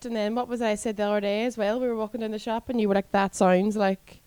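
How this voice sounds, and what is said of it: Speaker's own regional accent. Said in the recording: “I think it's just my accent ... It's just my accent.”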